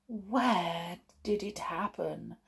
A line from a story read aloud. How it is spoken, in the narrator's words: she whispered